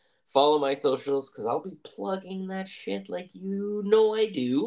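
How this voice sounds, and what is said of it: Usual voice. Nothing is said of it.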